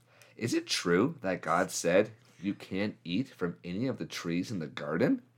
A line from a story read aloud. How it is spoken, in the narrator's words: Eve said